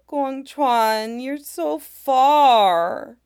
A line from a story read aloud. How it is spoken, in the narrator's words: whines